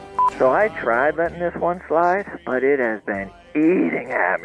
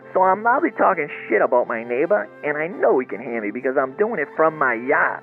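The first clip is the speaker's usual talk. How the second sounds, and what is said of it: Imitates another person's voice. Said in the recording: “my interpretation slash impression of the story that you told last show”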